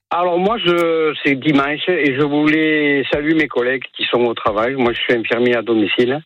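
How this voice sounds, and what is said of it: Southern French accent. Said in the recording (French): “c'est un accent du Sud que vous avez”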